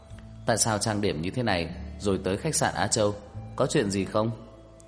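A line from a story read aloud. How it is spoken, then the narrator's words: Smiling question. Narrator (Vietnamese): anh ... mỉm cười hỏi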